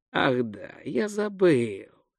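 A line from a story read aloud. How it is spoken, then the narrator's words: Thoughtful drawl. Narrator (Russian): задумчиво протянул Гончия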